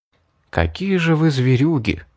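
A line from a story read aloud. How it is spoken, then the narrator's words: Whisper. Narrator (Russian): прошептал я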